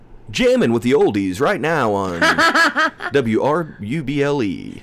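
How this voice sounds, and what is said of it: Radio DJ announcer voice. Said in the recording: “I just like went into a radio guy ... you have a good radio voice”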